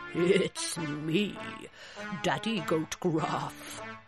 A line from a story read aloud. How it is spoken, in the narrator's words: he said in his deep, goaty voice